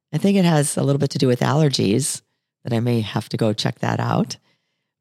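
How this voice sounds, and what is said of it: Raspy voice. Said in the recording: “I have a little bit of a raspy voice today. ... You sure do.”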